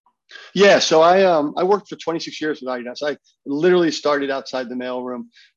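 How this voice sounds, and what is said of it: American accent. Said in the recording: “I can hear an American accent.”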